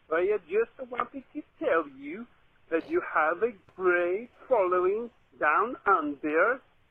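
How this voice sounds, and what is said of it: Australian accent. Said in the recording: “probably you can tell from my accent that I am from Australia”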